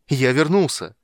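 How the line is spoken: Joyful exclamation. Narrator (Russian): радостно воскликнул человек

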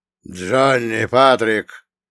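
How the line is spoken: Old man's booming voice. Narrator (Russian): голос старика буквально прогремел, разносясь по самым отдаленным уголкам склада

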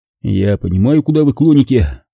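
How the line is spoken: Grumbling. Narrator (Russian): проворчал я

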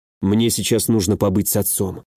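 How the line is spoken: Quiet speech. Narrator (Russian): тихо проговорил

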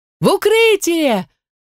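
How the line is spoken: Screaming twice as loud. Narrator (Russian): в два раза громче завопила я

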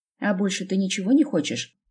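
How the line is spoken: Snapping retort. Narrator (Russian): огрызнулась в ответ

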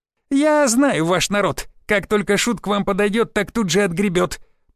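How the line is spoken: Squeaky. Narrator (Russian): пропищал он

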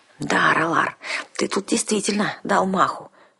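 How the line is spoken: Reproachful whisper. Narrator (Russian): укоризненно шепнула

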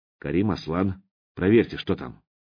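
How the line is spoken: Quiet command. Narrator (Russian): Мировой приказал негромко

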